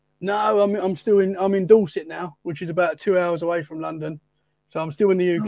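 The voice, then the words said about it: English accent from near London. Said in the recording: “Judging by your accent, you're not from Florida”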